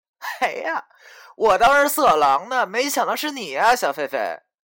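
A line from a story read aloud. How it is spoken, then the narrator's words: Laughing with sudden realization. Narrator (Chinese): 他恍然大悟的笑着说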